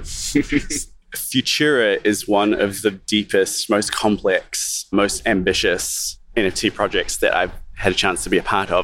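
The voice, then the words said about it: New Zealand English accent. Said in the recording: “With the proper British accent, nevertheless. ... New Zealand, even.”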